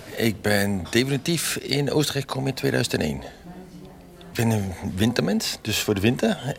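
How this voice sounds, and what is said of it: Southern Dutch Brabant accent. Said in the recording (Dutch): “dat is een fijn zuidelijk accent ... Dit is een heel zuidelijk accent. Ja. Brabants accent.”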